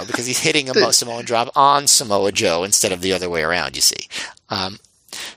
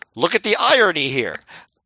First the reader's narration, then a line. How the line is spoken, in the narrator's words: Claudio yelled